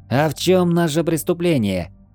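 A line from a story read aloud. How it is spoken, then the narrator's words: Loud question. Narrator (Russian): громко спросил Хила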